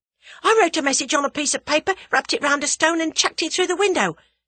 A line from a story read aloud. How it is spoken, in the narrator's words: continued Albert breathlessly